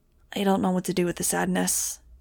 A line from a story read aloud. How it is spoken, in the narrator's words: he said finally, sighing